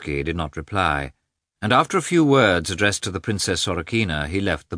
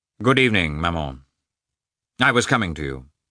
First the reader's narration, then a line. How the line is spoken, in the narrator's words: replied coldly